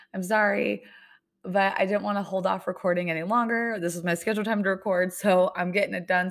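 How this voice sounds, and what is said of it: Hoarse voice. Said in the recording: “why my voice is hoarse.”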